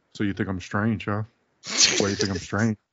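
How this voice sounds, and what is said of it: Somber Canadian accent impression. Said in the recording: “comments that Owen Hart would have said ... in a very weird, like somber ... like Owen Hart would yell everything, and he's like in this Canadian accent”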